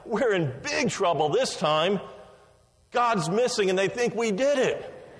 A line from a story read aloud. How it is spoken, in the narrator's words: the younger brother, gasping for breath, replied